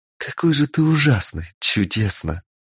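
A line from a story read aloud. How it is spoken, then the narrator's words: Admiring whisper. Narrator (Russian): В восхищении шептала она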